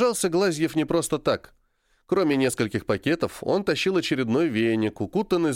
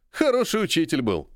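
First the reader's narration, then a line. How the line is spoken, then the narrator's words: Short laugh. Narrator (Russian): хохотнул Серый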